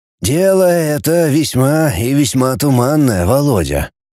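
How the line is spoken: Sighing teacher. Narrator (Russian): опять вздохнул учитель

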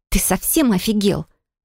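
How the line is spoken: Hissed. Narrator (Russian): прошипела

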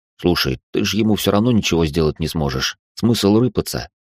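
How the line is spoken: Whispered in ear. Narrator (Russian): Машка шепнула ему на ухо

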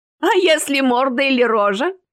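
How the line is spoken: Mischievous giggle. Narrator (Russian): хихикнул один из озорных гостей

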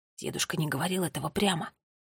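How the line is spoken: Quiet reply. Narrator (Russian): так же тихо ответил Томми

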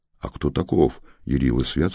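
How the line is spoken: Plain question. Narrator (Russian): спросил Ярик

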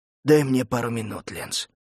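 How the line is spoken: Muffled fearful reply. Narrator (Russian): глухо ответил Лука, боясь оборачиваться

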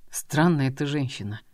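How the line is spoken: Husband speaking through teeth. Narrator (Russian): процедил сквозь зубы супруг

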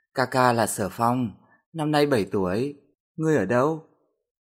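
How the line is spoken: Child speaking. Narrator (Vietnamese): đứa trẻ mới lên tiếng

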